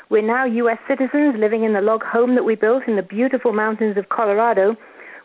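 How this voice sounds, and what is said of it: English accent. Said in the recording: “As you can probably tell from the accent, we're originally from England.”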